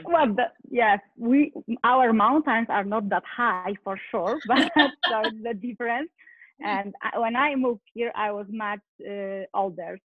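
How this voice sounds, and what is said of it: Non-native accent. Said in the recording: “Here is my accent now, you know. I couldn't get rid of it.”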